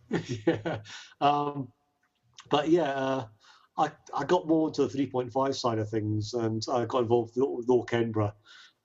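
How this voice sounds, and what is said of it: Southern English accent. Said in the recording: “The accent. ... I lived in South England when I was a year old. ... I kept the accent.”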